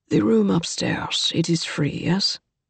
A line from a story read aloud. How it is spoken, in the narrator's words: the black-haired man said quietly to the serving woman